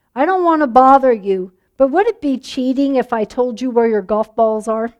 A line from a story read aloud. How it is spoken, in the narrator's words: She called out